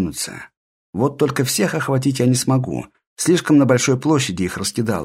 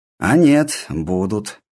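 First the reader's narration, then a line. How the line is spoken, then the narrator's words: Snorting. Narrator (Russian): хмыкнул я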